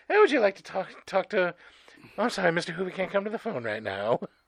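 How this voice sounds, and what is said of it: Put-on transatlantic accent. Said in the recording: “The transatlantic accent thing.”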